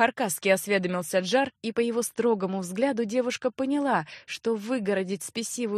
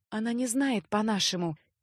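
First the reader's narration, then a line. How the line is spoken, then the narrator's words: Soft rustling whisper. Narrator (Russian): тихо прошелестела графиня на том же языке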